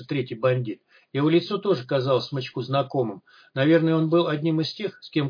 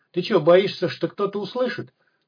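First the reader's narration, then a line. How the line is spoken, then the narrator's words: Chuckling. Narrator (Russian): хохотнул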